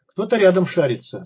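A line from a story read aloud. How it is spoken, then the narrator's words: Through gritted teeth. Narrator (Russian): сквозь зубы объяснил псих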